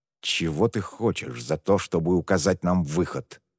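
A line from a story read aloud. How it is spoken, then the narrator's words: Forced through clenched teeth. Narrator (Russian): сквозь зубы выдавил Муан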